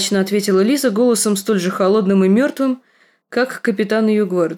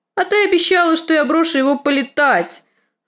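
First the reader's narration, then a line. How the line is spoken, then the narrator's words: Wailing, trembling. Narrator (Russian): завопил лорд орлиного гнезда, начиная трястись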